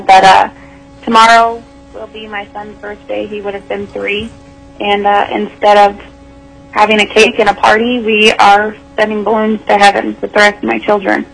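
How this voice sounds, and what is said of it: Emotional, choked-up voice. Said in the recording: “sorry, it's a little emotional”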